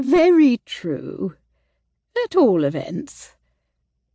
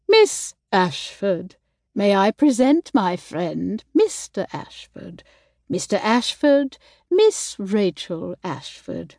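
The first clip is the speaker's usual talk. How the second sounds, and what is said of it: Put-on posh royal accent. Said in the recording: “She began in a royal accent.”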